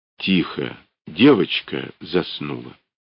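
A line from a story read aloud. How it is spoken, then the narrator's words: Quiet. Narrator (Russian): Мамонт негромко произнес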